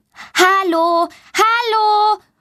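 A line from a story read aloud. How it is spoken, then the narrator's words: Loud call. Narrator (German): ruft sie laut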